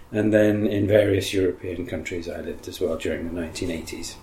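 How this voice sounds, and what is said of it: English accent. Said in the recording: “I grew up in Africa and later on in England, as you can tell from my voice and accent”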